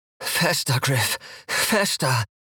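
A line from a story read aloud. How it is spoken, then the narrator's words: Whimpering. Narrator (German): höre ich sie wimmern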